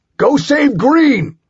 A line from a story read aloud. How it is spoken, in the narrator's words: I bellowed